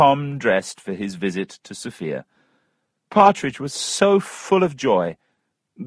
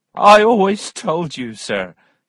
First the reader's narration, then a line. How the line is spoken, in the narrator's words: laughed